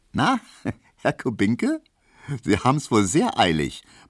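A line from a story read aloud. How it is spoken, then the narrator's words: Laughing. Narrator (German): meinte die und lachte Emil Kubinka entgegen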